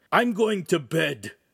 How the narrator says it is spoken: the oaf said gruffly

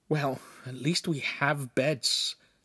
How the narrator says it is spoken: Lincoln hissed

